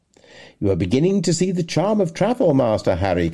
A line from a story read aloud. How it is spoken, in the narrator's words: cried my uncle